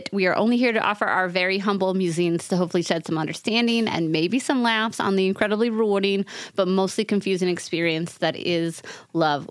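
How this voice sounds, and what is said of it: New York accent, fast speech. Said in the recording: “my New York accent came out in that by accident ... I'm talking too fast”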